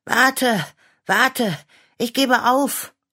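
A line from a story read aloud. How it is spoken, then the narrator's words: Panting call. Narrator (German): rief Clara schnaufend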